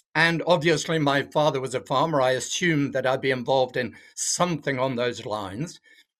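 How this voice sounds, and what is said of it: English accent. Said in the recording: “as you can tell by my accent, I'm not originally from Australia. I'm from England”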